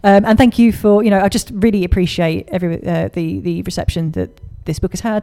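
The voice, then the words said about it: A somewhat unusual accent. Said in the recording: “my accent, because I know it's a bit strange”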